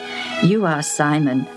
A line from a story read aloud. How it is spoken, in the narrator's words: said Jesus